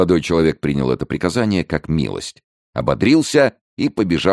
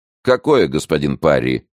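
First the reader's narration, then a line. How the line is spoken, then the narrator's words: Cold, slightly softened question. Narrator (Russian): холодно спросил молодой вельможа, несколько смягчая тон в угоду принцессе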